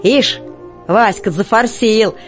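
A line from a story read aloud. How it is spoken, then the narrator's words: Mocking. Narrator (Russian): насмешливо отзывается Котька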